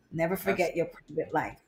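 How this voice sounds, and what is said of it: Imitates another person's voice. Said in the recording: “That's my Tina impersonation.”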